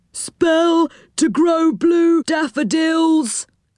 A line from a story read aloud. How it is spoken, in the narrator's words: cried a gnome